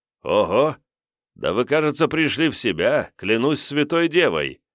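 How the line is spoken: Exclamation in German. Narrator (Russian): воскликнул Д'Артаньян почему-то по-немецки

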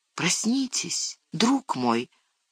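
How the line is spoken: Whisper in ear. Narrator (Russian): шепнул он ему на ухо

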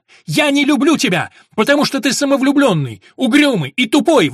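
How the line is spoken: Screaming. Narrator (Russian): вопила она

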